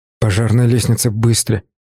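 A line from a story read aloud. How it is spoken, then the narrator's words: Whisper. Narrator (Russian): прошептал я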